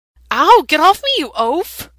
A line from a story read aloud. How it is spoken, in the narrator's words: Sam squeaks